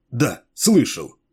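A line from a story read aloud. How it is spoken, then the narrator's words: Sharp. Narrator (Russian): резко ответил Адени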